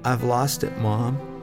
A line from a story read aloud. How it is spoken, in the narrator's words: timidly he said